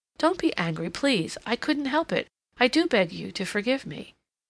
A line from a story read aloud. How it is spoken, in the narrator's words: Cassandra exclaimed impulsively